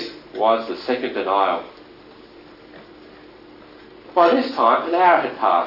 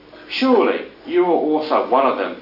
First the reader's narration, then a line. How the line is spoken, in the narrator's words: the scoffing firesiders insisted